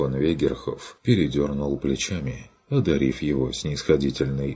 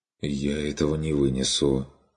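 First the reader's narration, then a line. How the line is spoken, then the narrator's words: Mumbled. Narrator (Russian): пробормотал он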